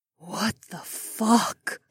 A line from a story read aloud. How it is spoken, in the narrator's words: Cat breathed